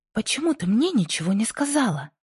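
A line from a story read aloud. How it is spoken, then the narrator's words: Agitated repeated question. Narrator (Russian): Взволнованно переспросила Джинни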